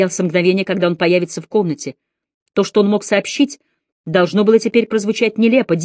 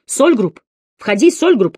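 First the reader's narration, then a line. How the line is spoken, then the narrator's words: Shout. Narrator (Russian): крикнул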